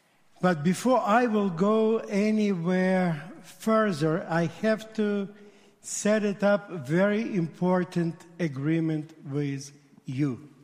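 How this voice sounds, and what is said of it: Heavy Russian accent. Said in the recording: “my heavy accent ... my broken English ... my straight Russian”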